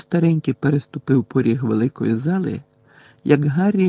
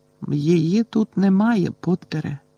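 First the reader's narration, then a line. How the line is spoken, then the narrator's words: Sad reply. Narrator (Ukrainian): сумно відповіла мадам Помфрі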